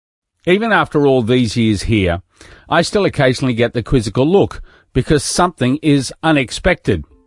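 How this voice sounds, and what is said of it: Speaks with a noticeable accent. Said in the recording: “More often, it is because of my accent.”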